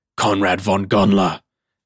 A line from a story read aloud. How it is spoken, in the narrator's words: thundered the mad Gael